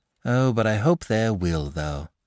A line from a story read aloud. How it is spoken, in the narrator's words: replied the little fellow wistfully